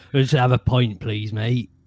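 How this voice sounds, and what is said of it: Put-on Southwest English pub accent. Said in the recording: “I grew up in like the Southwest, and like if you take a trip home and like you walk into the local pub, it is like being surrounded by a lot of Hagrids”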